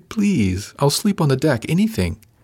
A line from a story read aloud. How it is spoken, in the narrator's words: she pleaded